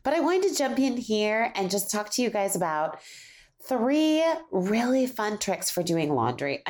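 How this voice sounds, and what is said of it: Slightly off, altered voice. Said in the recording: “My voice is not quite the same. ... My voice is just a little off today since I'm getting over a cold.”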